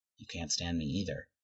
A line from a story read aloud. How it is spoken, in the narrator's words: Derek whispers back